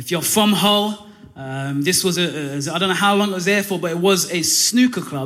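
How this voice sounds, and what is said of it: Non-local accent, not from Hull. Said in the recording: “He heard my accent, realized I'm not from Hull”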